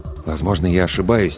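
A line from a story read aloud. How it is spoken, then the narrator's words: Quiet. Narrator (Russian): тихо сказал доктор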